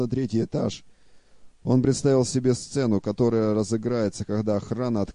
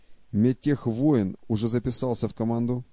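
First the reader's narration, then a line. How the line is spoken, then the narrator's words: Plain. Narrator (Russian): спросил Майлз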